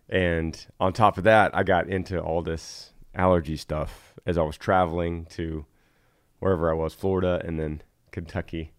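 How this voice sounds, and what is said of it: Voice sounds bad, worn. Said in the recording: “Can you tell my voice is bad? ... It's on the way back up.”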